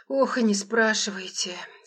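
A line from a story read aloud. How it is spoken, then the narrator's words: Caretaker sighing heavily. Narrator (Russian): смотритель тяжело вздохнул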